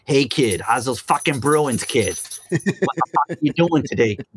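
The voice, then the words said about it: Exaggerated Boston accent. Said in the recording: “crazy Boston accent ... that stereotypical Boston dude”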